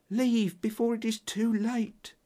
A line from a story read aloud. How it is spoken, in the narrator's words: she whispered